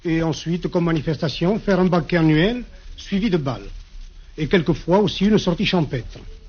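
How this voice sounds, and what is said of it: Regional French accent. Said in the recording (French): “vous n'avez pas perdu l'accent”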